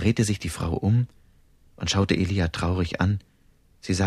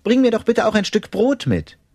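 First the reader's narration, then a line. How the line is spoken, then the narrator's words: Calling after. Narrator (German): Elia rief ihr nach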